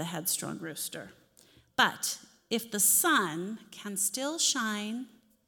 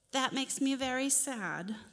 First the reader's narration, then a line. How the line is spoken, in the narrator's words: the rooster sighed